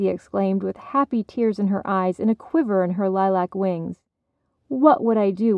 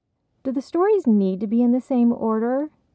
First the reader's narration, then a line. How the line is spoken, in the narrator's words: Nini asked